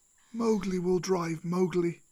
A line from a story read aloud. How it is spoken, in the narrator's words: Akela sighed